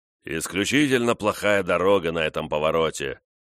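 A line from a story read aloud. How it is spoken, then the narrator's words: Booming voice. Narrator (Russian): заявил он громовым голосом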